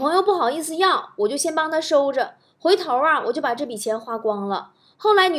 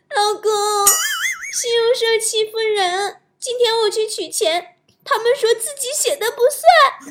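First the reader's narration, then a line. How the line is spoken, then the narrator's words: Crying. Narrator (Chinese): 女朋友哭着跟我说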